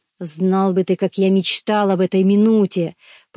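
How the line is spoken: Growl, to himself. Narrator (Russian): прорычал, обращаясь больше к самому себе

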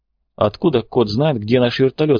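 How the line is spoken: Plain. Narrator (Russian): спросил Клинч

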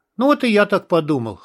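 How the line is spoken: Serious snort. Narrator (Russian): хмыкнул Борг, оставаясь при этом по-прежнему серьезным

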